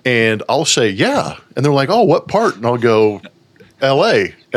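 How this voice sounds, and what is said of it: Slight lazy Southern-sounding drawl. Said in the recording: “I have a little bit of like a lazy drawl in my in my voice”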